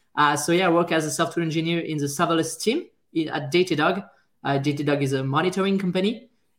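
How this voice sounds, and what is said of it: French accent. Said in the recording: “I'm a French guy, as you can hear by my French accent, but I try to get better.”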